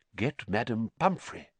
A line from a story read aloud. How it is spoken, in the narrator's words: whispered Dumbledore